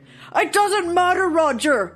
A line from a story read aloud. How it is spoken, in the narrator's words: yelled Santa